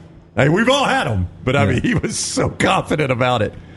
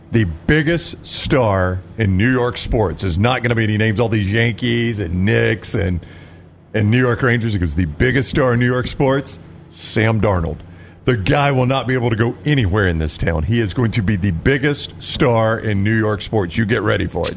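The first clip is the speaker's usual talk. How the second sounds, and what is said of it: Mike Francesa impression, thick New York accent. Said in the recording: “The sports radio legend Mike Francesa ... he does it in that thick New York accent.”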